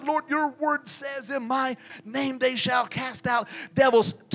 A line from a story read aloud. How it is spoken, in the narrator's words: reading, whispering